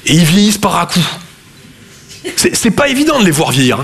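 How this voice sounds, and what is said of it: Southern French Toulouse accent. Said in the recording (French): “Je viens de Toulouse à la base. Ouais, ça s'entend un peu. ... mon accent”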